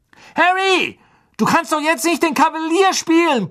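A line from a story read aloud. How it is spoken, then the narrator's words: Blustering. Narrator (German): polterte Wood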